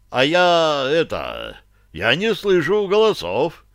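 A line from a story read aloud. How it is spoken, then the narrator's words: Deep bass voice. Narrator (Russian): пробасил Барри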